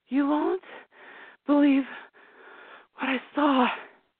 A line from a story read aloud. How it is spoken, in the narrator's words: she breathed out